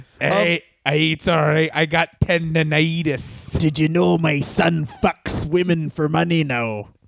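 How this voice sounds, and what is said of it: Character voice with an accent. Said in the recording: “I don't know why I've got an accent.”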